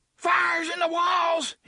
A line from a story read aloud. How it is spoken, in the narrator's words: he screamed